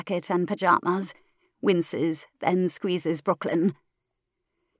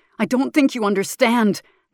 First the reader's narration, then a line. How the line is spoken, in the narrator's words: Maker shouts